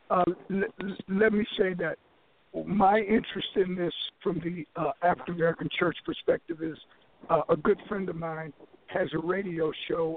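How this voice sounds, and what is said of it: Hoarse, failing voice. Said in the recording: “as you can tell. I'm losing my voice”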